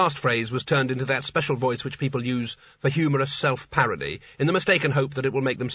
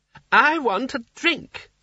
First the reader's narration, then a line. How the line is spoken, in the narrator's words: snapped Creosote